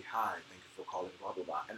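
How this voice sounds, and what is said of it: Very deep, low, smooth voice. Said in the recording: “it was very deep and very low ... my terrible impersonation of him”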